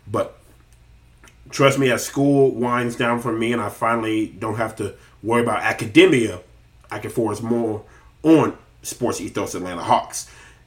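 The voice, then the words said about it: Voice still sounds unwell. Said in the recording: “You can still hear it in my voice, not fully healthy”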